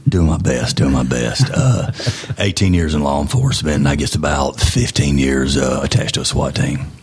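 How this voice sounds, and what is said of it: Deep, congested voice. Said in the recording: “I'm not trying to do a Vin Diesel night... I've got a head cold... everybody's going to think it's sexy”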